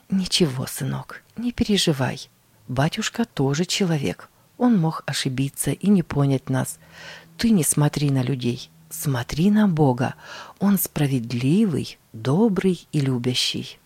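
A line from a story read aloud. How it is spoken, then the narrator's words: Meek, humble reply. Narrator (Russian): смиренно ответила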